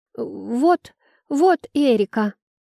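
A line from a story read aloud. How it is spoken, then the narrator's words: Stammering, hurried. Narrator (Russian): Запинаясь, быстро сдала меня Айла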